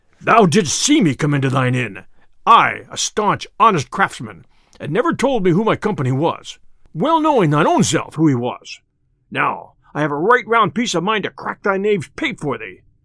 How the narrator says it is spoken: cried the tinker hastily, and in a deep voice like an angry bull

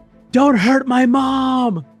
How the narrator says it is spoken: he screams

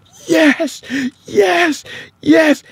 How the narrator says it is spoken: she's breathing like she's coming up from underwater, and she starts yelling

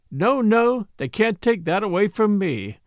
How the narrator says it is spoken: and sang it

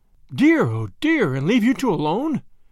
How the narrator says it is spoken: cried Grandma

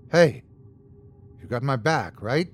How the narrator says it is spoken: I whispered

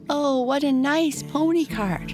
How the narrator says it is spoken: cried the boys and girls

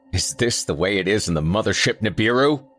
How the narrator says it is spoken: I snapped

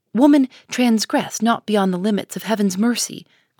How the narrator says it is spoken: cried the Reverend Mr

